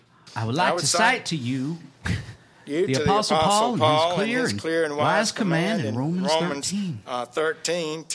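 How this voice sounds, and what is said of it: Imitation with fake Georgia accent. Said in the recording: “working on your Jeff Sessions impression? ... You could do a fake Georgia accent, just like he does.”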